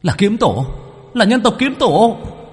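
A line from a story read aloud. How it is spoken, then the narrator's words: Crying out. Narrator (Vietnamese): một yêu tộc nào kêu lên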